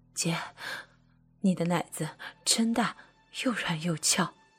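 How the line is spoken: Panting, broken speech. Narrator (Chinese): 妻子一边喘气，一边断断续续的说

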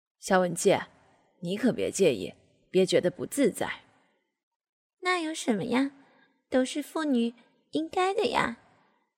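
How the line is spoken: Happy laughing. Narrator (Chinese): 他一边开心的笑着说

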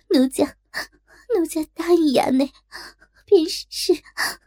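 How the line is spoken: Helpless crying. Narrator (Chinese): 实是无可奈何，只得哭道

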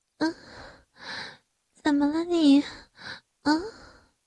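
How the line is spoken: Breathless question. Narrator (Chinese): 小慧喘着气问道

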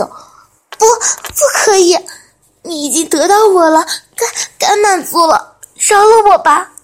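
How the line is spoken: Weak pleading. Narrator (Chinese): 全身乏力的他只剩下哀求

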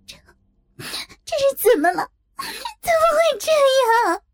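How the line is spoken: Trembling, stammering. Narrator (Chinese): 萍姐浑身颤抖，根本说不出来

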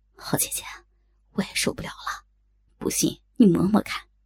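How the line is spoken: Soft, gentle. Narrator (Chinese): 慕容残花柔声道

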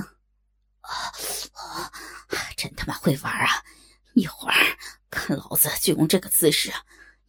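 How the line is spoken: Through gritted teeth. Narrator (Chinese): 胖子咬牙切齿的说道

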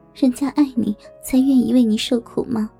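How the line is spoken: Soft smiling voice. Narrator (Chinese): 我也莞尔笑了 小声说道

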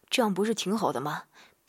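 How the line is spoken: Breathless, weak. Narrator (Chinese): 小姑姑一边娇喘一边无力地说

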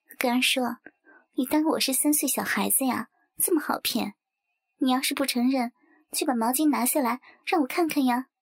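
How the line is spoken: Smiling. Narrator (Chinese): 圆圆笑着说

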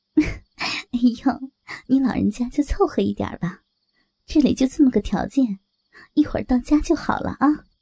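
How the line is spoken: Laughing. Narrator (Chinese): 我笑着说

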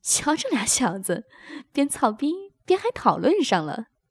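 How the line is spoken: Laughing. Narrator (Chinese): 高洁笑道

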